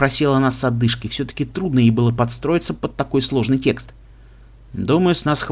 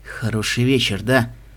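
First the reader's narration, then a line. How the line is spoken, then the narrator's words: Whispering man. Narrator (Russian): прошептал кубинец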